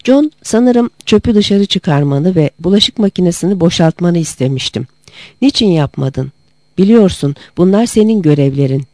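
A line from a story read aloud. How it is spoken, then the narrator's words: Plain. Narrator (Turkish): dedi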